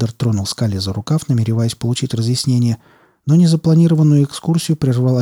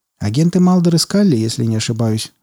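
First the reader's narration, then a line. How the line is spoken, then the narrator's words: Exclaiming. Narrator (Russian): воскликнул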